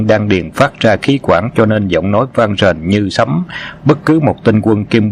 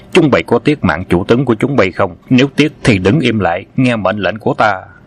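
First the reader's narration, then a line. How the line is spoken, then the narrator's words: Loud commanding shout. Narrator (Vietnamese): Khâu Sứ Cơ quát lớn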